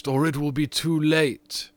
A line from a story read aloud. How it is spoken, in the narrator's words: cried the ghost